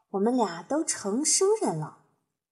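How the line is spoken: Playful soft voice. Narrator (Chinese): 他又用以前那种调皮的语调轻声说

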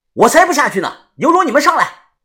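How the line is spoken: Loud shout. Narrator (Chinese): 大声的喊

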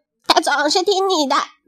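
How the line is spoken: Bleating lamb. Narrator (Chinese): 小羊莎莉咩咩叫着

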